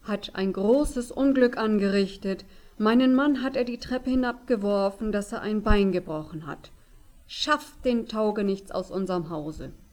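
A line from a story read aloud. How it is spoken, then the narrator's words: Calling out. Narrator (German): rief sie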